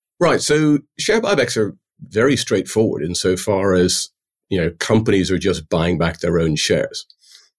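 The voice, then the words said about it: English-sounding accent, not Irish. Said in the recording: “my accent would be anything but ... So the Irish don't think I'm Irish ... I thought he was English when I first met him”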